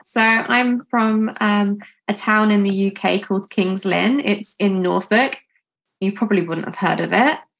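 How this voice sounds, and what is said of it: British regional accent. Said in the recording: “Love your accent.”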